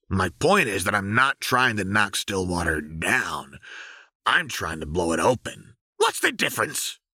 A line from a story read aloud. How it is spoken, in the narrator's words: Twitch sneered